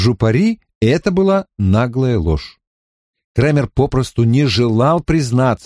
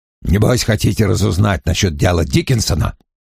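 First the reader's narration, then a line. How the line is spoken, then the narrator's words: Muttering under breath. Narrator (Russian): бурчал себе под нос Крэмер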